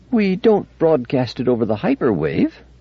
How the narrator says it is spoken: said Fastolf dryly

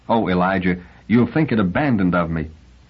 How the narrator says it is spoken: Galadriel cried softly

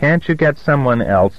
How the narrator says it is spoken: he squeaked

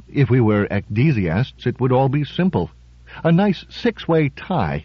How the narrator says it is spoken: Drake said dreamily

